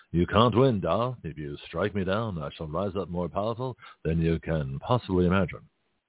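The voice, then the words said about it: Weak Alec Guinness impression. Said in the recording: “my very weak Alec Guinness”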